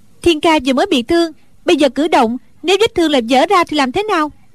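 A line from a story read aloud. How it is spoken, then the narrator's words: Angry. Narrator (Vietnamese): Đinh Đan tức giận nói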